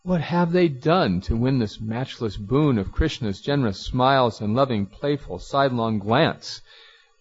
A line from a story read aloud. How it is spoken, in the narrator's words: the women cried